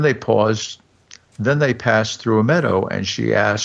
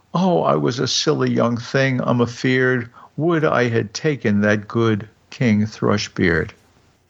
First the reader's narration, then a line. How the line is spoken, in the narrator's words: And she cried